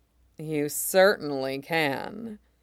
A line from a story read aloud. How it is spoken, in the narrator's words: he purred